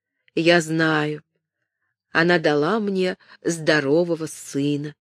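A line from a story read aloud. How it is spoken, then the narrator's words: Very quiet. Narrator (Russian): сказала очень тихо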